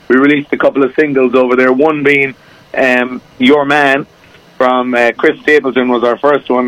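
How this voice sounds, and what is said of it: Irish accent. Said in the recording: “I'm over from Ireland, as you probably can tell by the accent.”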